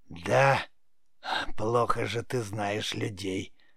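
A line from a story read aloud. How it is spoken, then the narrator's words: Creaky witch's voice. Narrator (Russian): проскрипела ведьма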